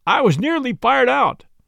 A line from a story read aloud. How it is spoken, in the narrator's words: he said furiously